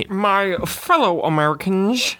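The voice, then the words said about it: Impression of a presidential voice. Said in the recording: “Why does every goddamn president sound the same? ... I do an impression”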